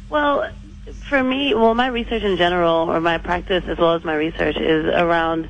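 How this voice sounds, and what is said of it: American accent. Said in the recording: “I hear an accent ... I'm from the U.S.”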